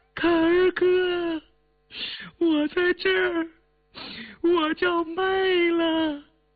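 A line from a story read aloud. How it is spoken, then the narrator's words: Timid tearful girl's call. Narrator (Chinese): 那个女孩怯生生带着哭腔喊道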